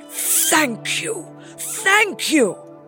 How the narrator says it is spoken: cried the emperor

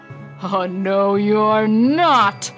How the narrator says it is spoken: bellowed the troll

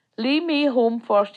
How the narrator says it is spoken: says

